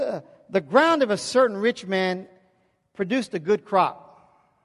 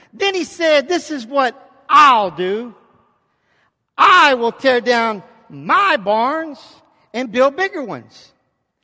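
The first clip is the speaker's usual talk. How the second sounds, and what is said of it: Shouting to drive a point home. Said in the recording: “when I'm shouting it out. I'm trying to drive a point home here.”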